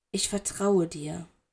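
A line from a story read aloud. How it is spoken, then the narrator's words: Whispering. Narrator (German): seine Lippen streiften wie Seide über seine Ohrmuscheln und er flüsterte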